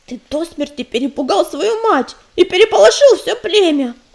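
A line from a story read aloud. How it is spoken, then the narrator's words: Grumbling. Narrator (Russian): проворчал ежевика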